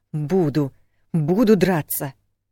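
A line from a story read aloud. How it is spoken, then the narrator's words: Angry panting while struggling. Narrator (Russian): зло пыхтела, тщетно пытаясь освободиться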